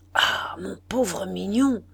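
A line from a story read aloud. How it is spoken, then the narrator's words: Needful murmur. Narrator (French): murmura-t-il dans le besoin qu'il avait de parler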